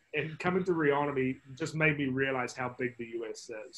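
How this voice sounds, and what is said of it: New Zealand accent. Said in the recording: “you can probably judge by my accent. I'm not from the States, I'm from New Zealand originally.”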